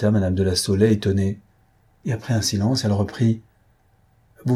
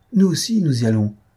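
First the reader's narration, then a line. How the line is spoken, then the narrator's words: Exclaiming. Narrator (French): s'écria la petite marquise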